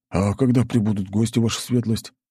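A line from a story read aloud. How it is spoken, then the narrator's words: Quick, sudden question. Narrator (Russian): Будто что-то вспомнив, быстро спросил Сашок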